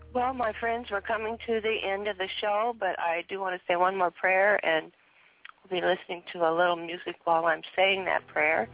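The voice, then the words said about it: Strained voice with a cold. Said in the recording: “as long as my voice will last. As you can hear, I have a cold”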